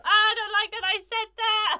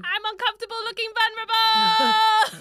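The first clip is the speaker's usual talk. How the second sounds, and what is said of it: Shouting loudly into the microphone. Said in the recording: “please stop shouting into the microphone”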